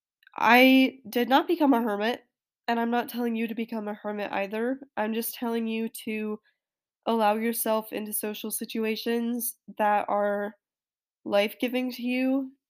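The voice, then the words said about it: Strained, failing voice. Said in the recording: “I apologize, my voice is going right now”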